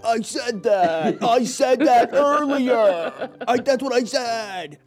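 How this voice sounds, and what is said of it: Imitates another person's voice. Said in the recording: “you had a really good impersonation of me”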